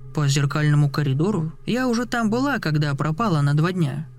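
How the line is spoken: Curt mutter. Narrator (Russian): буркнула она

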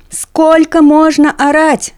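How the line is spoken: Yelling. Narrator (Russian): орал он

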